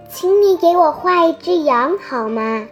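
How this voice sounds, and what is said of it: Small, faint, odd voice. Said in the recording (Chinese): “一个奇怪而又微弱的声音 ... 那个细小的声音”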